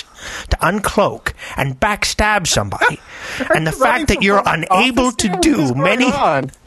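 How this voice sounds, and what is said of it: Grinch voice, like drunk Scottish-Irish man. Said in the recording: “my Grinch impression ... I thought it was like a drunk Scottish-Irish dude or something”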